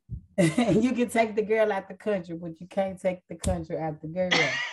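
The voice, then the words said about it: Raspy voice with Mississippi twang. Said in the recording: “raspy voice. However, I am almost back to me, ... not 100%. ... Y'all going to get that little Mississippi twang.”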